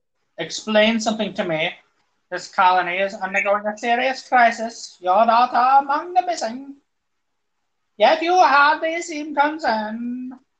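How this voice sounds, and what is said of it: Attempted German accent, robotic. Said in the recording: “I'm guessing that was supposed to sound German. ... It kind of went like a weird, almost robot voice.”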